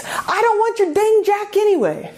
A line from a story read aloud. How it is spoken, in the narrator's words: the stranded man shouts